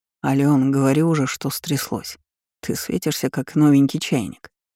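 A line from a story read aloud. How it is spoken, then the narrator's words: Calm reply. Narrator (Russian): спокойно ответил я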